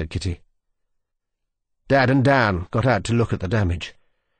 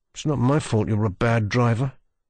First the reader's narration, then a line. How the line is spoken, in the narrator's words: muttered Daniel